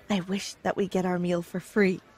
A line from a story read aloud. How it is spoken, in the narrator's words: I whispered